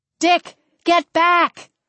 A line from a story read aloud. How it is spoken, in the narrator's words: I yelled